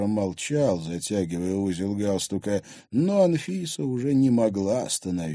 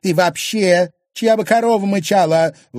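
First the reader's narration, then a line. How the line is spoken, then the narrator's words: Indignant retort. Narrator (Russian): возмущенно бросила она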